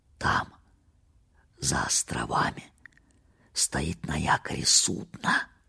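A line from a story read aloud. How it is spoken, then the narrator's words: Whisper. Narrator (Russian): прошептал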